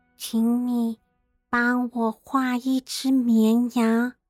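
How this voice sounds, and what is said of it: Faint, tiny character voice. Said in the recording (Chinese): “一种微弱、奇妙的声音……那个细小的声音”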